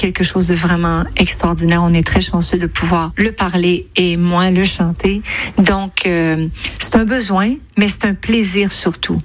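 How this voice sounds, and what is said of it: Quebec French accent, nasal vowels. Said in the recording (French): “on entend les voyelles nasales bien prononcées ... cette sorte de coup de cloche à la fin du N, besoin. Un son qu'on appelle en phonétique un appendice consonantique nasal vélaire ... une proximité étonnante avec notre accent provençal et marseillais ... l'accent québécois”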